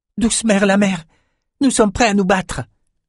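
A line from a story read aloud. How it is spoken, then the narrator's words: Breathless exclamation. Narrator (French): s'écria Bannon, le souffle un peu court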